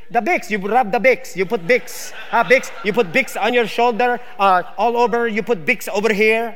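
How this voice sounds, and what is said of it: Put-on Filipino accent. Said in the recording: “the Filipino accent”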